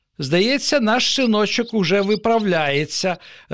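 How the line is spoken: Joyful. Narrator (Ukrainian): радісно повідомив татусь матусі

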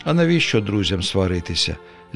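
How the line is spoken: Little man sighing. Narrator (Ukrainian): зітхнув чоловічок

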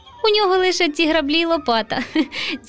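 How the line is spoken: Laughing. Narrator (Ukrainian): засміявся руденький Романко

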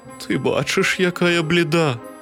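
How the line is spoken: Weak feeble voice. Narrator (Ukrainian): кволим голосом відказала хмара

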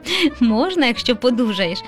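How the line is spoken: Laughing father. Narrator (Ukrainian): засміявся тато

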